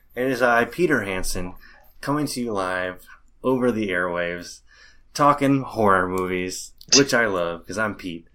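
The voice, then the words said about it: Chipper imitation of another person's voice. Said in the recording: “Is that your impression of me? ... a little more chipper ... same voice and everything, but just a little more chipper”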